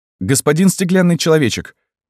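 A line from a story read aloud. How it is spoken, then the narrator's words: Exclaiming after a pause. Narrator (Russian): воскликнул Петр после некоторого промежутка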